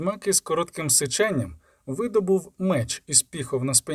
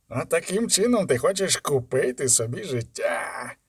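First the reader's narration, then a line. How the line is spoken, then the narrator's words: Hiss. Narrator (Ukrainian): засичав пан Швайцер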